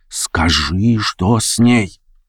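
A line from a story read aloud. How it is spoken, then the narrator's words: Whisper. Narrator (Russian): прошептал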